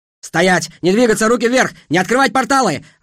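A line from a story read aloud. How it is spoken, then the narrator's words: Yelling through bars. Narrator (Russian): орали на нас через решетку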